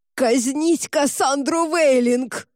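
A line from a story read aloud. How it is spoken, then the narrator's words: Thin strangled desperate yell. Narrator (Russian): пытаясь лишь спастись, кардинал тонко, как-то задушенно заорал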